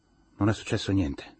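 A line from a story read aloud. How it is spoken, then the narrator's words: Tired voice. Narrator (Italian): disse con voce stanca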